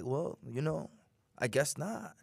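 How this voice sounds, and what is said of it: Lazy, cool drawling impression. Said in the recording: “He's got the drawl ... he's lazy when he talks ... he's too cool for himself ... That was a good impression ... It's like that draw.”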